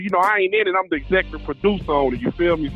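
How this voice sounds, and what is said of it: Southern country accent. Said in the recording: “we already got one country motherfucker on this show, and I don't know if I can handle two of y'all ... I'm just now getting used to his goddamn accent, so now I got to deal with yours, too.”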